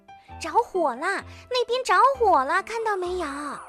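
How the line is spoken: Anxious and loud. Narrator (Chinese): 长颈鹿急得大声说

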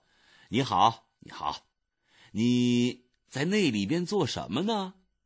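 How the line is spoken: Earnest, not mocking. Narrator (Chinese): 医生没有笑他，医生说

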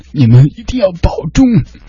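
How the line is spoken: Slightly tearful voice. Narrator (Chinese): 略带哭腔的跟她说

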